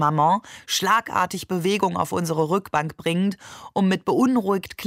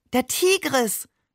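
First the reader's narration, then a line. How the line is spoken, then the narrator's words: Delighted exclamation. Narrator (German): rief er entzückt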